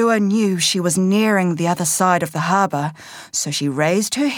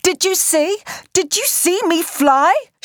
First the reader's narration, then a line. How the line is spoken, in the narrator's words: she screeched excitedly